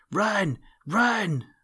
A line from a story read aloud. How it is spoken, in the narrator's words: screamed Sammy Jay